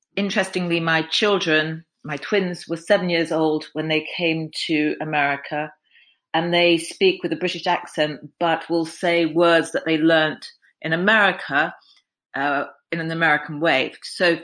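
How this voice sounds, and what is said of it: Southern English accent. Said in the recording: “speaks with a Southern English accent”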